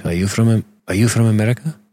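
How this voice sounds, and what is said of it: Imitated Russian accent. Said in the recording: “I met this Russian dude, young guy... Let me do his voice.”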